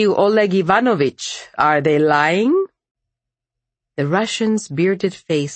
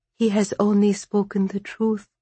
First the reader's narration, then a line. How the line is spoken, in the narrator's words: she whispered, her voice small